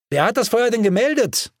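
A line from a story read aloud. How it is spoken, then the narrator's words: Calling after someone. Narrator (German): rief ihm Bruneau hinterher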